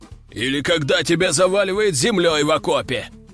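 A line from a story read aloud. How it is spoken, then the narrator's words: Growled. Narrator (Russian): рыкнул Брак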